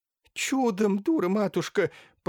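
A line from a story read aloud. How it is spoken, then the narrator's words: Moaning holy fool. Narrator (Russian): простонала блаженная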